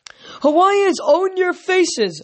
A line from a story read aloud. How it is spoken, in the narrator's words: a third one shouted